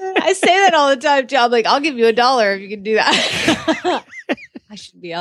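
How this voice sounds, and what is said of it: Usual voice. Nothing is said of it.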